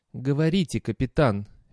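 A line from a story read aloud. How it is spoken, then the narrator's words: Soft interruption. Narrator (Russian): мягко прервал его Аратап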